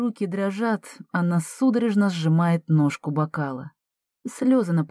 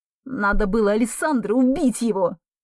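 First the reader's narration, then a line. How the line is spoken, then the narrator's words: Angry hiss, mother. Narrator (Russian): Зло шипит мама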